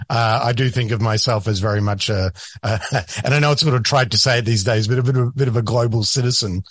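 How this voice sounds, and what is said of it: Australian accent. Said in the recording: “your accent... ambiguous accent... my Australian accent has definitely gotten stronger”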